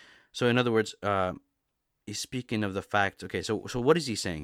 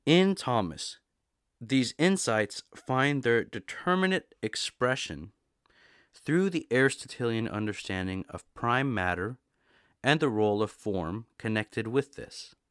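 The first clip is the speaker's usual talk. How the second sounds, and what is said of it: Slow, deliberate reading aloud. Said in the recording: “I'm going to read it slowly.”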